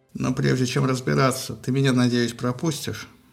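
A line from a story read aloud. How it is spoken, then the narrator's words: Gloomy question. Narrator (Russian): мрачно спросила Эрида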